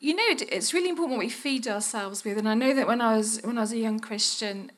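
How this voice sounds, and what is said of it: Softened Birmingham English accent. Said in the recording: “I was just a Brummie, still am. I dealt with my accent a little bit, but it won't go away completely.”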